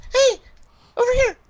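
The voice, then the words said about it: Imitates an annoying video game character. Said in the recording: “I love that impression, man. That's awesome right there”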